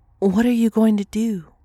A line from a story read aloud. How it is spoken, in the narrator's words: she asked